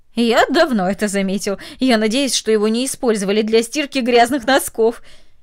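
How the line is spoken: Laughing. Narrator (Russian): засмеялся и сказал

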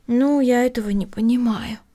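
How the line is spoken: Sigh. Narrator (Russian): вздохнула Эми

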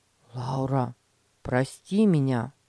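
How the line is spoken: Sincere. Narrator (Russian): Петя искренне сказал

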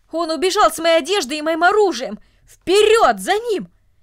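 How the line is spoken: Loud furious shouting. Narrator (Russian): Солдат громко кричал от ярости

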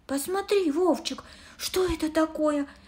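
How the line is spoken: Exclamation. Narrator (Russian): воскликнула она

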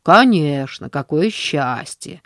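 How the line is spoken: Contemptuous snort, man. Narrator (Russian): пренебрежительно фыркнул мужчина

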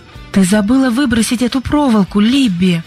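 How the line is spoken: Exclamation. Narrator (Russian): воскликнула Сьюзен

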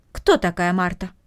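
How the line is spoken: Plain. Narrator (Russian): спросила тетя

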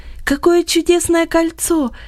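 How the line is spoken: Delighted exclamation. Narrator (Russian): воскликнула она с восторгом

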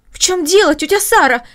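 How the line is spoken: Exclaiming. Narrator (Russian): воскликнула Маша

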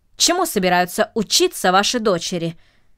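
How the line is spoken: Sharp question, gentleman. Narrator (Russian): резко спросил джентльмен

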